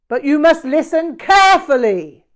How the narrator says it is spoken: he shouted

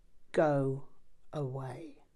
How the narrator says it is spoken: he looked furious and said in an icy voice

